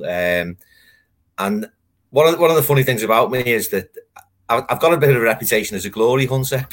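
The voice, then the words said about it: Liverpool accent. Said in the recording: “I think I can tell by your accent ... I'm from Liverpool, born in Liverpool”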